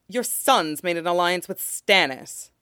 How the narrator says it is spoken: he said harshly

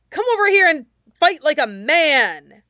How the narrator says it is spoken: the ragged teen yelled, pinned to a wall

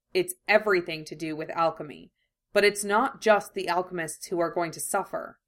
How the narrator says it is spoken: Ed replied, cutting in before Roy had the chance to speak, his voice clear and doubtless

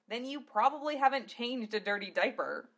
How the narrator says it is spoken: she snorted

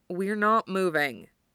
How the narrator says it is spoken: he says flatly

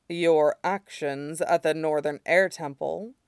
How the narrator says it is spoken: Shidan said dryly

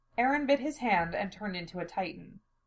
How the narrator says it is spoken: Mikasa continues, in the same calm tone

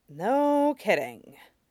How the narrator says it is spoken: Sokka said under his breath

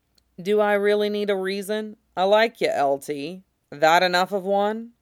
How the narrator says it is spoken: Simon chuckles

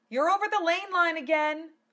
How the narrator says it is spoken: she shouted to Gowrie

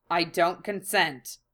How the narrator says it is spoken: Hiei said flatly

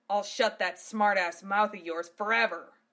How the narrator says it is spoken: Gav roared back

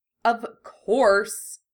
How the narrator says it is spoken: he sneered

